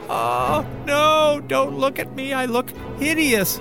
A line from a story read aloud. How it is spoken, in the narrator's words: he cried